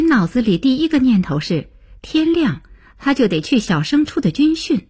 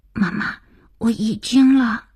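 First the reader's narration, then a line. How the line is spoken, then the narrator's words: Hurried, frightened child's whisper. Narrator (Chinese): 儿子急促惶恐的小声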